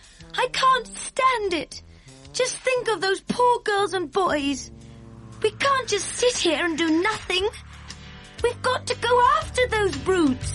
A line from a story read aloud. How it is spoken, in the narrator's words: she cried out